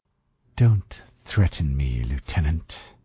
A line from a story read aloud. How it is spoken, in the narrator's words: Kawahara said coldly